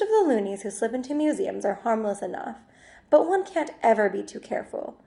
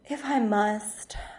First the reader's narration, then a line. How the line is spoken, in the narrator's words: said with a deep sigh